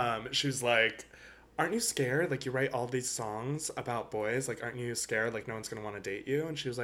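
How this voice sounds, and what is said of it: Usual voice. Nothing is said of it.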